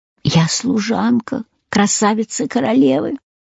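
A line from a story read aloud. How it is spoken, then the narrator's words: Weak, barely audible whisper. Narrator (Russian): Чуть слышным от слабости голосом прошептала девушка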